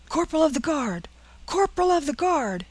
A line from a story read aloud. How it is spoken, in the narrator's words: shouted the sentinel